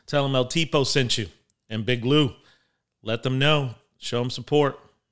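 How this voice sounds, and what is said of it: Announcer-style radio voice. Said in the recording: “That was like my radio voice.”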